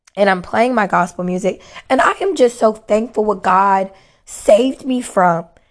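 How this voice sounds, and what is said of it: Hoarse, nearly lost voice. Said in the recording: “like I said, my voice is gone”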